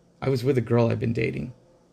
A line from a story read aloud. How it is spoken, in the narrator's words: He said softly